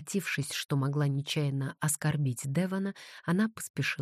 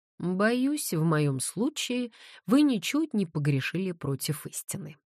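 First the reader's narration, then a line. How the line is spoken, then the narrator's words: Laughing. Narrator (Russian): рассмеялся Девон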